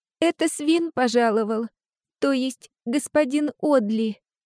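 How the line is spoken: Trembling voice. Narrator (Russian): дрожащим голосом произнесла Ава

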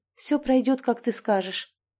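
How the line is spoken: Quiet. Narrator (Russian): тихо произнесла я

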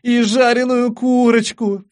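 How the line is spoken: Everyone howling. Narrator (Russian): все взвыли

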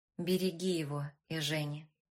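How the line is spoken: Softer tone. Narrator (Russian): сказал более мягким тоном

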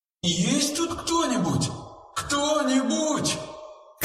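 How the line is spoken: Echoing shout. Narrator (Russian): крикнула Вера, и ее голос эхом отозвался несколько раз

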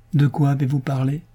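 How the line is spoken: Neutral, hiding exasperation. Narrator (French): demanda-t-il d'une voix neutre afin de dissimuler son exaspération grandissante

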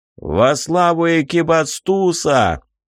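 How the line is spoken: Joking shout. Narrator (Russian): шутливо крикнул

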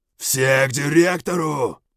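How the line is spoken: Shouted. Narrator (Russian): крикнул я

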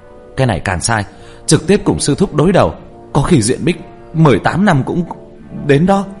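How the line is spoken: Yelling. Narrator (Vietnamese): trong miệng còn la hét

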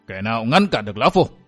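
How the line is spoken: Menacing, gritted voice. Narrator (Vietnamese): Thanh Long giáo chủ và bàng đàn chủ gằn giọng nói

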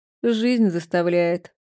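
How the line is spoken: Grumbling mutter. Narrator (Russian): буркнула Жанка

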